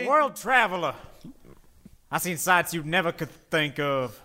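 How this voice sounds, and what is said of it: Gentle Southern gentleman accent. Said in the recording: “I affect this gentle southern gent anytime I need to put Americans at ease”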